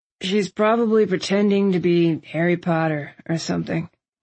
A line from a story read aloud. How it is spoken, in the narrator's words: Landon said, his voice thick with sleep